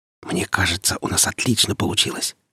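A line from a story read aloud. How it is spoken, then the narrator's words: Whisper. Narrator (Russian): шепнул Димка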